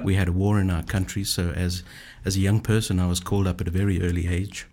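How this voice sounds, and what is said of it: Zimbabwean accent. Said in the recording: “that accent is beautiful... My accent is from Zimbabwe in Africa.”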